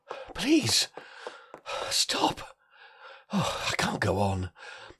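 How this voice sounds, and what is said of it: Breathless, panting delivery. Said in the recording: “I'm too out of breath.”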